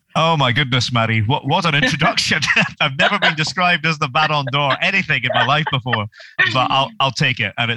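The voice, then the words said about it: Scottish accent. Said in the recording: “as you might hear from his accent, he is Scottish”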